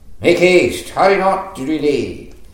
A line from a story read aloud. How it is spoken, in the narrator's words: Jonathan cried out after the lad